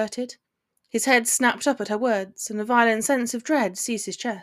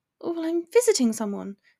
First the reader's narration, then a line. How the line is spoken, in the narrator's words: explained, nervously